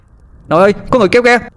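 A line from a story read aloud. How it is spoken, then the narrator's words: Shouting. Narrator (Vietnamese): Tôi hét lên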